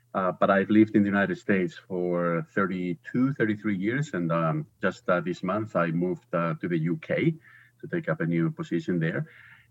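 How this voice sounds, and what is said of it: Spanish accent in English. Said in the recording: “I'm originally from Spain. I think people will detect an accent pretty quickly.”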